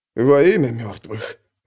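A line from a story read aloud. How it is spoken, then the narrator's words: Breathed out. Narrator (Russian): выдохнул кто-то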